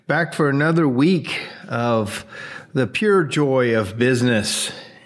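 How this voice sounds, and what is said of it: Sarcastic delivery. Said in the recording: “I say that very sarcastically”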